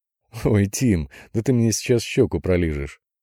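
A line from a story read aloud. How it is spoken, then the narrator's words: Laughing. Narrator (Russian): Наконец не выдержал и рассмеялся Мишка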